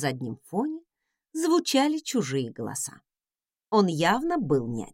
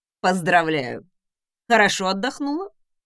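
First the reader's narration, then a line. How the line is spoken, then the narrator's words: Smirking snort. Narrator (Russian): хмыкнул Редвин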